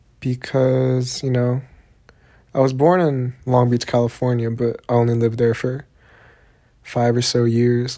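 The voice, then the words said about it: Southern US accent. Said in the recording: “I for sure have a southern accent”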